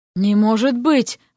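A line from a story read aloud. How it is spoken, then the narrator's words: Breathless exclamation. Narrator (Russian): выдохнул он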